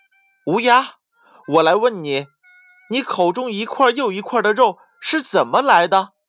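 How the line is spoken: Fox, loud demanding question. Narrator (Chinese): 狐狸大声的质问道

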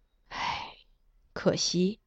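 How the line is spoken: Wistful sigh. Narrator (Chinese): 他颇感慨，叹道

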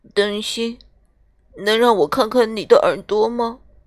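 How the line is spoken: Soft. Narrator (Chinese): 匹诺丘轻声地说

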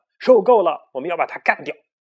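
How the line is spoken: Shout. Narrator (Chinese): 小胖墩喊道

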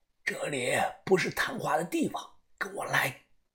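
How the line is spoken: Old man, suddenly hushed. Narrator (Chinese): 这个瘦老头突然压低了声音

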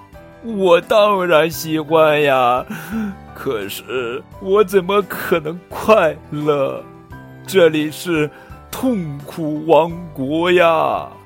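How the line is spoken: Crying. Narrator (Chinese): 国王哭着说

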